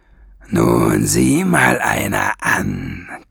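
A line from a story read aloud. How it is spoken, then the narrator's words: Growl. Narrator (German): knurrte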